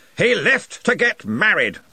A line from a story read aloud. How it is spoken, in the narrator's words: snapped Ridcully